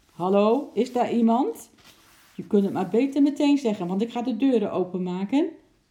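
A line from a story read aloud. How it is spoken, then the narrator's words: Loud call. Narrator (Dutch): riep hij hardop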